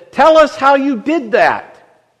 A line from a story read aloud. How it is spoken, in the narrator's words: a woman in the balcony shouted out and said